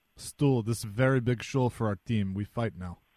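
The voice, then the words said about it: Imitation of Christoph Oliwa's broken English. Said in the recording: “That's a very good impression of my old buddy Christoph Oliwa ... he didn't know a lot of English”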